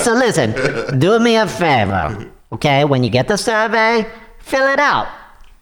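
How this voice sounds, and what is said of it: Robotic voice with Russian-sounding accent. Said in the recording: “You sound a little robotic there ... You sound pretty Russian to me or something.”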